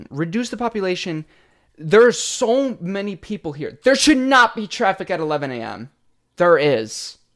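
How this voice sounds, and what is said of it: Shouting. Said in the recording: “I don't know why I'm shouting.”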